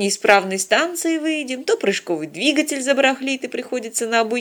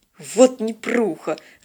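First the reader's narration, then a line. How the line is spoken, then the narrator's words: Irritated, curt. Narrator (Russian): раздраженно бросил он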